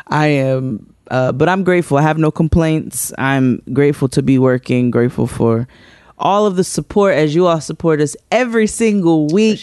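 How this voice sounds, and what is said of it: Tired-sounding voice. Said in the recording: “You can hear the tired in my voice.”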